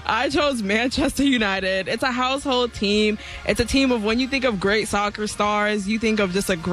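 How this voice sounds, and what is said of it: Usual voice. Nothing is said of it.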